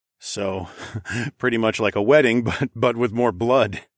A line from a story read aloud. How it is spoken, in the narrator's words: chuckled to myself